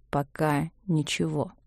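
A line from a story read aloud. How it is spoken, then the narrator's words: Slow. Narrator (Russian): сказал он медленно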